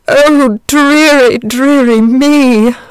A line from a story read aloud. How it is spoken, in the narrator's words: moaned the dragon